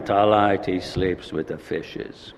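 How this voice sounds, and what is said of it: Weak Godfather impression. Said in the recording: “Godfather, it's not a very good imitation”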